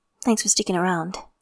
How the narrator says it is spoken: Softly, he adds

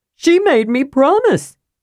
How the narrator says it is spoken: Tass wailed

